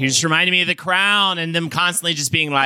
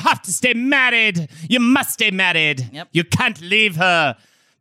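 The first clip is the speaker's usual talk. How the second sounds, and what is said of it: Badly done put-on accent. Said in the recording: “that was a terrible accent.”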